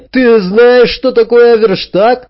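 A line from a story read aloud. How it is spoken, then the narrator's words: Shouted reply. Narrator (Russian): Джек крикнул в ответ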